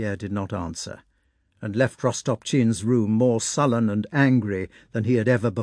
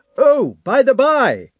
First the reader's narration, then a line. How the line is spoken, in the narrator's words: he shouted through the doorway after Pierre